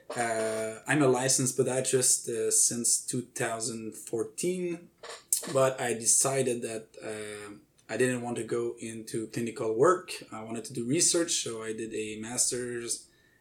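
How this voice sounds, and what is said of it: French-Canadian accent. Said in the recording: “As you may notice by the accent, I'm a French-Canadian researcher.”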